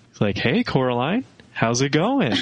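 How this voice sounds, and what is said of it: Creepy, trance-like character voice. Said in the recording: “his voice is so creepy ... That was a good little impression. ... It's very otherworldly ... he's kind of sounds like he's in a trance”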